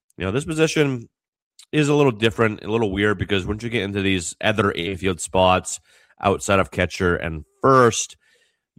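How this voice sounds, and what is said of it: Slightly off voice from cold. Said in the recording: “My voice is a little off... I'm dealing with another cold... It's still not 100%, but a little bit better”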